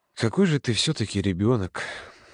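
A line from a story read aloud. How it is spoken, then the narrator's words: Sighing. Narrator (Russian): вздохнул Володя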